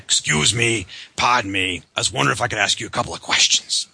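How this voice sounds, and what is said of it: Bad Columbo impression. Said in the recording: “a really bad Columbo impersonation”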